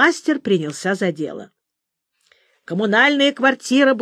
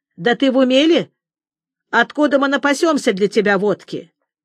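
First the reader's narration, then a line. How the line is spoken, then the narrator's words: Stern. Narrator (Russian): Петр Петрович строго сказал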